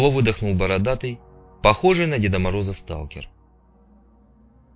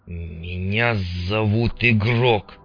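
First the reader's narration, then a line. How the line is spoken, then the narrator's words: Angry, through gritted teeth. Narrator (Russian): сквозь зубы процедил Карташов, чувствуя, что начинает злиться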